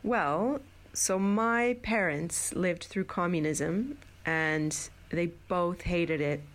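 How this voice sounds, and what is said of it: American-sounding accent. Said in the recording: “You've got a beautiful American-sounding accent.”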